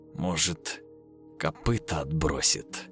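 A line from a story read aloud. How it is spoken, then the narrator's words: Angry whisper, mother. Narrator (Russian): Зло прошептала мать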